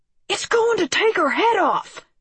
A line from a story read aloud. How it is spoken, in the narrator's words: he screamed